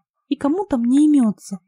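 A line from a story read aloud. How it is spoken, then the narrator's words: Grumbling. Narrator (Russian): проворчала Лена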